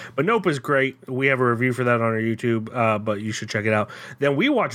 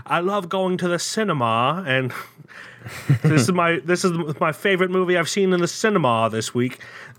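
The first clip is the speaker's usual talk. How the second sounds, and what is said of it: Put-on British accent. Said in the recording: “the entire island of Britain and England and all that ... anyone that speaks with that accent that I was trying to imitate”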